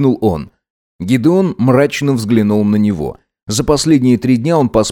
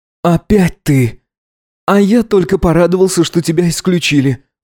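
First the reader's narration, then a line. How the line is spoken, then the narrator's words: Sighing. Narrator (Russian): вздохнул он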